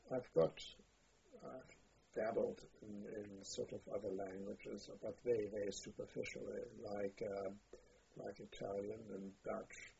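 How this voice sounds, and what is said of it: Strongly accented English. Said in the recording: “My English is reasonable. In terms of accent, it's poor.”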